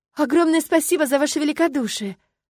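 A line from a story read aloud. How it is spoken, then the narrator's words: Tearful exclamation. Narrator (Russian): воскликнула я, не выдержав напряжения, снова смахивая выступившие слезы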